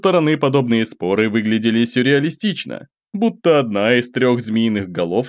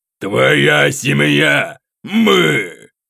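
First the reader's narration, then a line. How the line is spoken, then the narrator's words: Growl. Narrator (Russian): рычал Атикая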